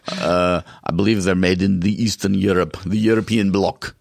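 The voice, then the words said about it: Poorly done put-on foreign accent. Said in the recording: “That's a terrible accent.”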